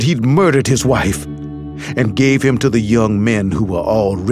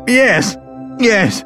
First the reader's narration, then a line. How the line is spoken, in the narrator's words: Bell whined